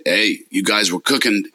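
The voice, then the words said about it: Very thick accent. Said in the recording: “this very thick accent”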